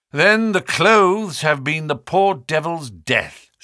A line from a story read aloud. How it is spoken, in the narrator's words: said he